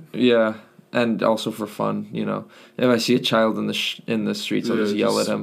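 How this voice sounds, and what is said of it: Hoarse, worn-out voice with cracks. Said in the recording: “My voice is shot to bits. I'm not sick, it's just wrecked. So expect expect voice cracks. ... I've just been yelling a lot. ... Sounds like you have a bit of a cold.”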